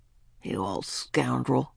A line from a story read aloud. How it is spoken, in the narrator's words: muttered Mr